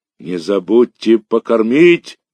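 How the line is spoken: Shouting after someone. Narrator (Russian): кричал вслед нам Мишка

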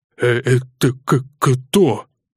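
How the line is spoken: Slight stutter, asking. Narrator (Russian): слегка заикаясь, спросил

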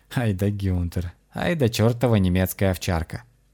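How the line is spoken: Laughing. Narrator (Russian): рассмеялся Дима

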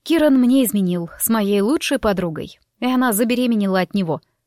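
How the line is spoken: Dry explanation. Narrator (Russian): сухо пояснила я

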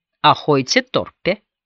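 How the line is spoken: Plain. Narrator (Russian): сказала Беверли

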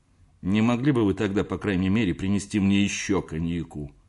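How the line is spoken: Grumble. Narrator (Russian): проворчал я, обращаясь к Кёльнеру

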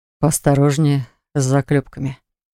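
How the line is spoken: Slightly husky voice. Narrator (Russian): с легкой хрипотцой в голосе произнес Хакл

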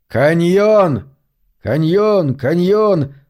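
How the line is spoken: Piercing shout. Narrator (Russian): Локлан пронзительно закричал

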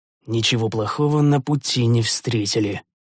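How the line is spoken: Muttering. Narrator (Russian): пробормотал я

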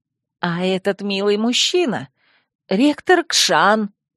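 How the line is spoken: Hoarse. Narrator (Russian): просипела я

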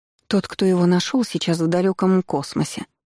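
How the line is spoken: Sigh. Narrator (Russian): вздохнула Мария

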